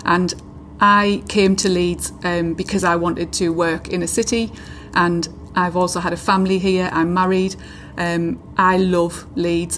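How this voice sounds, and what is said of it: County Durham English accent. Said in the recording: “you can probably notice from my accent that I'm not born and bred in Leeds. I'm from a coastal town in County Durham”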